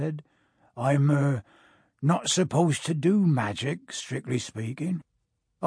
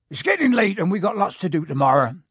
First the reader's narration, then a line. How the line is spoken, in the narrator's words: said Hagrid loudly